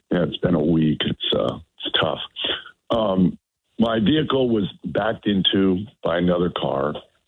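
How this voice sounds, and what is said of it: Hoarse, strained voice. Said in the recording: “my terrible laryngitis”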